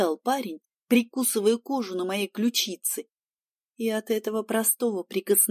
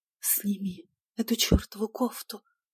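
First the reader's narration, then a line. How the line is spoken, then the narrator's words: Desperate pleading with desire. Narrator (Russian): взмолилась я, уже не в силах сдерживать нахлынувшую волну желания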